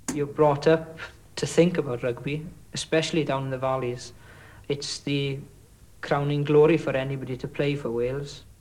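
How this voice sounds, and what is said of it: Welsh accent. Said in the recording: “a Welsh accent”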